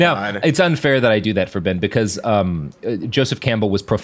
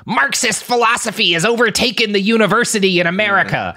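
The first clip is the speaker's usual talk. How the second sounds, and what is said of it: Imitates another person's voice. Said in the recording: “doing a Ben Shapiro voice”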